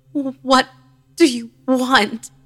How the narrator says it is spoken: She moaned and croaked again, repeating the same noise until I could make it out

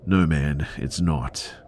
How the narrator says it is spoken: Tim said nervously

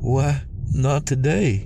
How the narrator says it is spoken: Jen sighed

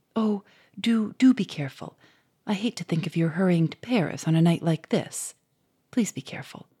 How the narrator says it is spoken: she said anxiously in a low voice

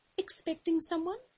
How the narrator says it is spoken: Giselle's voice was almost a whisper, like it came from a long way off

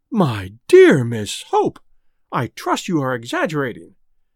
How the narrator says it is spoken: exclaimed the Quabaris in unison

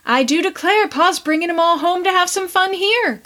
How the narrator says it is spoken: cried Prue

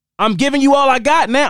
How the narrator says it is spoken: somebody yelled

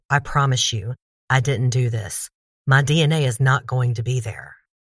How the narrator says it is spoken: Ron was not insulted by their bluntness and answered firmly

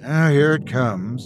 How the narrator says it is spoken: I sighed, knowing what was coming next

